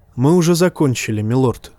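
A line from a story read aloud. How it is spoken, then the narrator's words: Plain. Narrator (Russian): сказал мейстер Пилос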